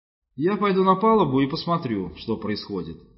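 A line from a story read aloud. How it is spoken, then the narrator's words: Plain. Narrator (Russian): сказал он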